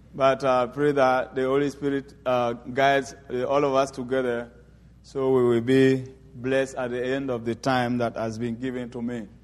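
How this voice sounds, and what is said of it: French-accented English, Ivorian speaker. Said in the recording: “I am from Ivory Coast. We speak French there. And please forgive me for my English somehow twisted.”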